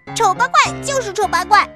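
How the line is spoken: Shouting. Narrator (Chinese): 马小龙冲小黑妞喊道

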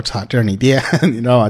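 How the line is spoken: Joking. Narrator (Chinese): 当时还开玩笑说

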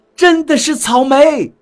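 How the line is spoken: Delighted cry. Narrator (Chinese): 惊喜地叫道

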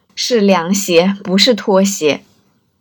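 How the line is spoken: Amused correction. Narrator (Chinese): 他还会笑着纠正

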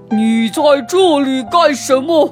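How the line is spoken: Beast roaring. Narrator (Chinese): 野兽吼着

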